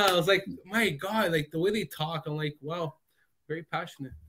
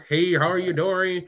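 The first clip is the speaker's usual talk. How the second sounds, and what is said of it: Put-on Texan American accent. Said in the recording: “I love their accent. Like that Dallas, that Texan, I don't know, American accent.”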